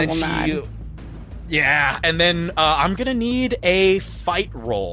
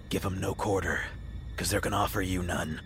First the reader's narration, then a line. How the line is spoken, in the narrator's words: She whispers down